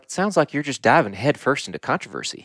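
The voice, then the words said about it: Put-on Texas accent. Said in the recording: “Your mom's Texas accent.”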